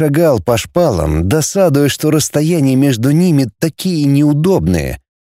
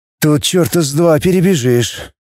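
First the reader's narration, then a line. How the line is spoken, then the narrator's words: Glum sigh. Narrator (Russian): уныло вздохнул Роман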